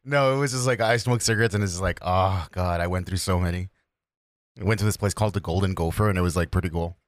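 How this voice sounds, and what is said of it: Rough, sick-sounding voice. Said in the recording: “that's why my voice is all fucked up right now ... I was wondering if you were sick”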